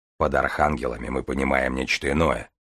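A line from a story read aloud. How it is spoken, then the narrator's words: Amused snort. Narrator (Russian): хмыкнул Железовский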